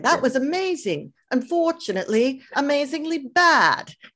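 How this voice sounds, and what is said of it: Imitates another person's voice, poor accent. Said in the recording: “like Simon Cowell used to say ... Now that's a terrible accent”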